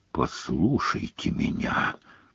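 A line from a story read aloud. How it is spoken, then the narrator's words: Very quiet. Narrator (Russian): сказал Снег так тихо, что Гарри пришлось изо всех сил притиснуть ухо к замочной скважине, чтобы расслышать его слова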